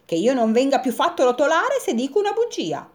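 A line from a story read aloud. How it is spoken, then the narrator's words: Little top's exclamation. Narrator (Italian): esclamò il trottolino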